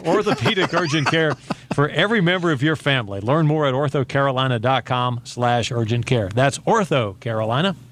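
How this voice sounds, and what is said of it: Monotone radio announcer voice. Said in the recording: “You're using your radio voice, aren't you? ... I'm doing it monotone now.”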